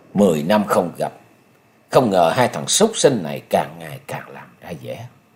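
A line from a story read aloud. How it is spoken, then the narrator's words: Cold muttering. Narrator (Vietnamese): Nhậm Sơn Bạch, lạnh lùng, chàng lẩm bẩm nói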